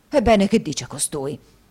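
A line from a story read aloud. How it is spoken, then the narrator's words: Flushed exclamation. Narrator (Italian): esclamò Squeers facendosi rosso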